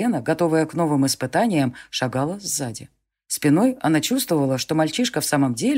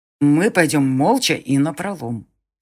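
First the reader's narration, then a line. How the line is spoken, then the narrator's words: Through gritted teeth. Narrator (Russian): почти сквозь зубы сказал Конор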